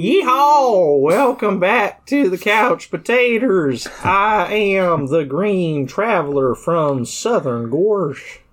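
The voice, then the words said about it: Exaggerated Southern accent. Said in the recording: “So we got accents just like you Earthlings... not everybody's South sounds like that”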